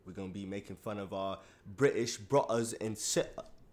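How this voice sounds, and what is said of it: Put-on British accent. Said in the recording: “Today we're doing this with a British accent.”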